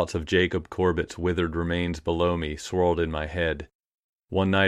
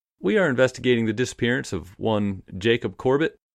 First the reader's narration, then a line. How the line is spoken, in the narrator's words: the detective said